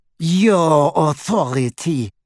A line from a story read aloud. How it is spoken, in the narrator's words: sneered, attempting to wrench her hand from his grasp